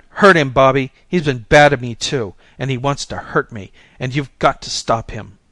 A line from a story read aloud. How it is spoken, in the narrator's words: I was excited, and I shouted